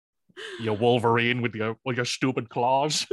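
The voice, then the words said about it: Imitates another person's voice. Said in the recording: “Hugh Jackman trying his best ... that's a good Hugh impression too”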